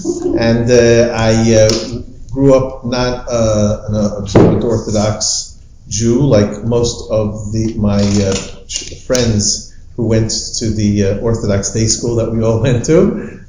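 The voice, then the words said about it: New York accent. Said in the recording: “I was born in New York, in case nobody recognized my accent.”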